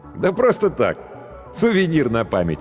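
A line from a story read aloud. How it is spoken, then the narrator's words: Laughing. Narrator (Russian): рассмеялся профессор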